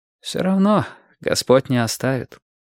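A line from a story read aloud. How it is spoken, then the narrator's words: Priest sighing. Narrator (Russian): вздохнул священник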